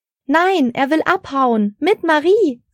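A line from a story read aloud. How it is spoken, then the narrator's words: Shouting over chaos. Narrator (German): rief Frau Engel über das Chaos auf dem Baum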